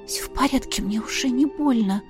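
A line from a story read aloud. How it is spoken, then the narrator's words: Breathless whisper. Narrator (Russian): на одном дыхании прошептала я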